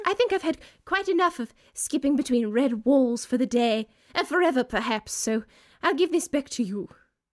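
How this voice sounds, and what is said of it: Older, regal-sounding character voice. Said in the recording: “She has become older and more regent sounding by the moment. ... I have no fucking clue what the accent is. I can't pin it down”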